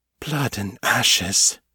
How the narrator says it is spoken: she whispered

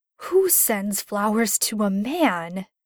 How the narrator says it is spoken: grumbled, red-faced as his sisters laughed

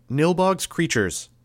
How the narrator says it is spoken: spoke, raising my voice

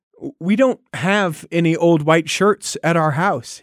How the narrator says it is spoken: he said

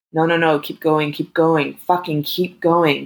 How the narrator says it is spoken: Gabrielle gasped

